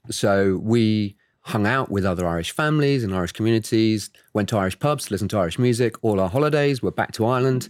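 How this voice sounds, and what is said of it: Strong English accent. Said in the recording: “I clearly have a strong English accent”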